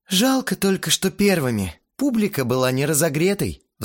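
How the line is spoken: Sighed. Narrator (Russian): вздохнул Кирилл

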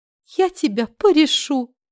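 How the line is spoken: Joyful smiling. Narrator (Russian): радостно улыбнулась

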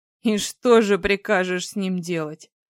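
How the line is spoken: Astonished wry snort. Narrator (Russian): хмыкнул, пораженный

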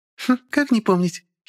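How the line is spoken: Little girl giggling. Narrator (Russian): хихикнула девчушка

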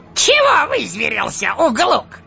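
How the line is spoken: Snapping retort. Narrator (Russian): огрызнулся желтозубый

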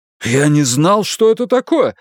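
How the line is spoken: Exclaimed. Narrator (Russian): воскликнул дворецкий

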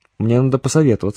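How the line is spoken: Plain. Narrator (Russian): ответил комбат

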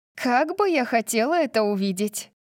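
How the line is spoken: Laughing, then lowered voice. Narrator (Russian): засмеялась Тори, затем понизила голос

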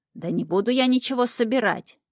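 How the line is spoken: Displeased grumbling. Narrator (Russian): недовольно заворчал Шнырь

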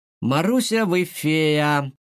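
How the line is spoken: Shouting. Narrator (Russian): закричал Дима

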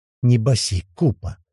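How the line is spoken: Quiet request. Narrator (Russian): тихо попросил Локис

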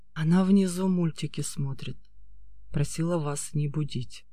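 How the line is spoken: Quiet reply. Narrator (Russian): тихо ответил

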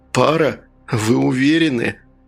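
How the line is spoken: Sighing. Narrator (Russian): Смайл вздохнул

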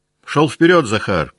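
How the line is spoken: Shout. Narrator (Russian): крикнул Николай кучеру отца

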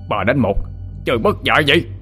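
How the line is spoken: Roaring. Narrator (Vietnamese): Hắn ta gầm lên

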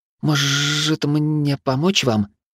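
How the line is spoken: Timid offer. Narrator (Russian): робко предложила Рина

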